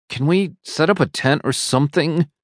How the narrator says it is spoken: whimpers

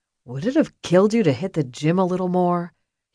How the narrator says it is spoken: grumbled

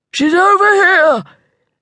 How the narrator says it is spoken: a deep voice yelled

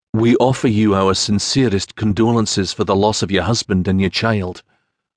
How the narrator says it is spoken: Macreath said

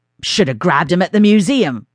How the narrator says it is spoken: Floyd barked

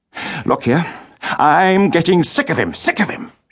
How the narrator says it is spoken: shouted Richard

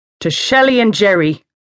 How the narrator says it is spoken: he called out

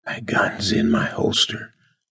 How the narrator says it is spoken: she whispered

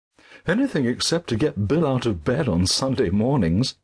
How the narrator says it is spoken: smiled, and they laughed

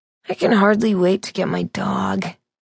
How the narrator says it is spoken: Jeff said, his voice fading

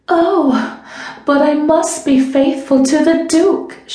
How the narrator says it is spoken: she cried

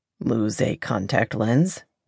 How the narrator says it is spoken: he asked dryly

